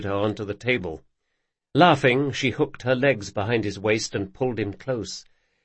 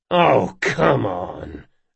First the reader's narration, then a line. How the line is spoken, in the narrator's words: Locke growled